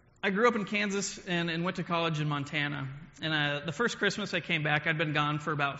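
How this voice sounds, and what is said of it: Usual voice. Nothing is said of it.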